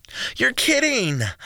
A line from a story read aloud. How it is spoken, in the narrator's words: Lynn gasped dramatically as if she was part of a telenovela